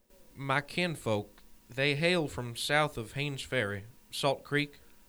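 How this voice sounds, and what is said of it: Tennessee accent. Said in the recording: “I know the accent. Tennessee?”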